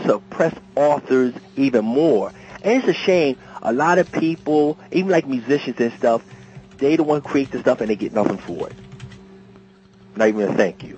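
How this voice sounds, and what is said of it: Pennsylvania East Coast accent. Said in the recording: “He heard that Pennsylvania accent and ran like hell.”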